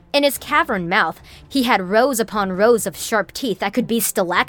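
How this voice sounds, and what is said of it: Usual voice. Nothing is said of it.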